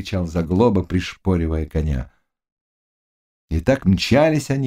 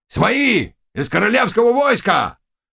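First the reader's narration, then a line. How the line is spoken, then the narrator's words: Shout. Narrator (Russian): крикнул Заглоба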